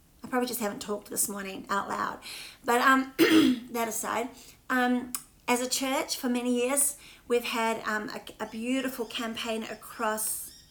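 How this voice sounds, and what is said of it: Slightly croaky voice. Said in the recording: “My voice is a bit croaky, isn't it?”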